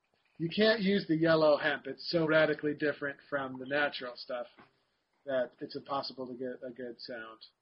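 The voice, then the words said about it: Sarcastic mock-serious delivery. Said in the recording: “I'm being sarcastic”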